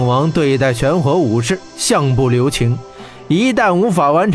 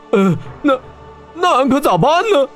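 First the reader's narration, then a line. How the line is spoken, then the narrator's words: Fearful, trembling. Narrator (Chinese): 大漠金仙是不寒而栗，颤声道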